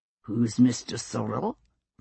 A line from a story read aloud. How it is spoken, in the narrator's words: Jamie asked in a deceptively mild tone of voice